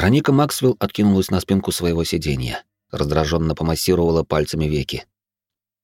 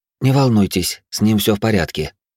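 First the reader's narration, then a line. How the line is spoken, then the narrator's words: Sighing. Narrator (Russian): вздохнула Рикс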